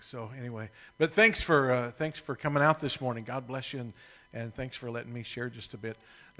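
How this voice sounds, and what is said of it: Oklahoma accent. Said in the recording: “my strange Oklahoma accent”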